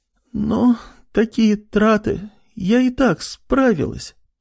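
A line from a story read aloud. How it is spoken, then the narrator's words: Strained. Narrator (Russian): с трудом ответила она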